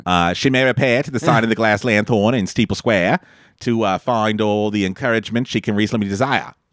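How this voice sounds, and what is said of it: Put-on Boston accent. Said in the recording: “Can you say that with a Boston accent? ... That was good.”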